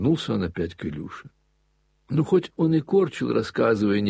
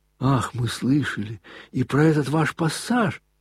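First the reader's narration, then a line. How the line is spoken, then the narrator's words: Staff captain exclaiming. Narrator (Russian): воскликнул штабс-капитан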